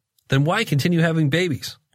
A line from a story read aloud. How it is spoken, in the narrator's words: one waitress blurts, unable to help herself